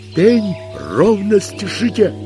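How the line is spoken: Shouted from afar. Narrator (Russian): Издалека крикнул им Иона

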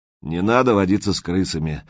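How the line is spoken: Gloomy, preachy tone. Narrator (Russian): мрачно и назидательно сказал Прохор

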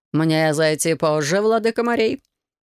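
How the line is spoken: Mocking question. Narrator (Russian): насмешливо спросил

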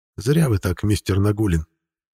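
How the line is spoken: Quiet. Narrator (Russian): негромко произнес он

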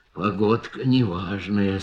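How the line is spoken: Elephant muttering. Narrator (Russian): слон бормотал

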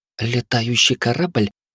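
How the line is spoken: Hurried mutter. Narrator (Russian): пробормотала танцующая

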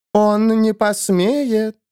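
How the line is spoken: Singsong. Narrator (Russian): нараспев произнесла Иона

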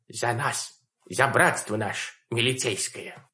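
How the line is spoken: Quiet. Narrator (Russian): тихо произнесла

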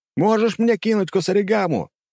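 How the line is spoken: Sly shout. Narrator (Russian): На моем лице расползлась хитрая улыбка, и я закричал Айка

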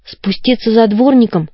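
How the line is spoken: Trembling voice. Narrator (Russian): спросила Коломбина дрожащим голосом

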